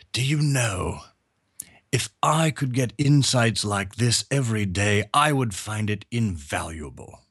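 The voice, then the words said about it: Heavy British accent. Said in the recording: “in his very heavy British accent said”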